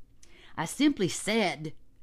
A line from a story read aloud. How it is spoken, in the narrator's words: shouted John